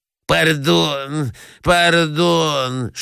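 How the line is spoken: Lisping. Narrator (Russian): шепелявит князь

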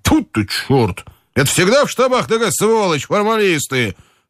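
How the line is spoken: Shouting. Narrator (Russian): крикнул Соколовский

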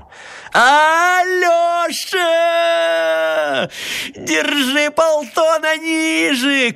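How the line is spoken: Shouting upward. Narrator (Russian): крикнул он в небо

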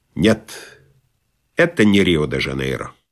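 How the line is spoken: Visitor, convinced tone. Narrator (Russian): Приезжий убежденным тоном сказал

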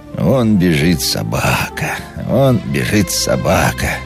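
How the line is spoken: Rhythmic sing-song under breath. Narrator (Russian): нараспев повторял он про себя, подлаживаясь произносить слова в ритм шагам

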